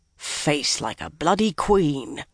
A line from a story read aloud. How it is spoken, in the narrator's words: the one-eyed man muttered to himself